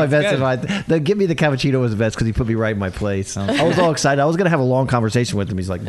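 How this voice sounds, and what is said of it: Usual voice. Nothing is said of it.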